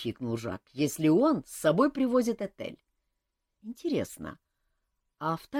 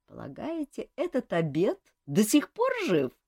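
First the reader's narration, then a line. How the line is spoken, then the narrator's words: Giggling. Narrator (Russian): хихикнул Жак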